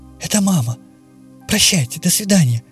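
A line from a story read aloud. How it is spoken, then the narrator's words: Girl's whisper. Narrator (Russian): шепнула девочка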